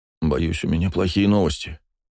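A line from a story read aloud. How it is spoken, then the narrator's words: Quiet. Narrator (Russian): тихо произнес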